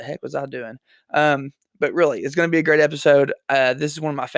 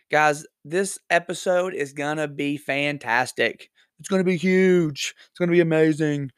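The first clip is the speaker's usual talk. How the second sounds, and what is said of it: Poor Donald Trump impression. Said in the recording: “terrible Donald Trump impression.”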